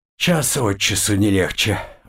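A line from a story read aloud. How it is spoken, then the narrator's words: Sighing. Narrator (Russian): вздохнул я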